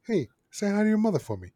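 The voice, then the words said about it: Mark Wahlberg impression. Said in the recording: “There's ... first good impression right there.”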